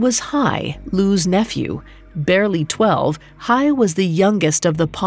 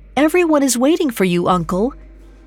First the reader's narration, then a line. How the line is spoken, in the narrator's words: A young voice called out behind him